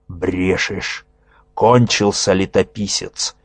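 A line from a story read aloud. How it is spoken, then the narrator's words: Growling demon. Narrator (Russian): зарычал нечистый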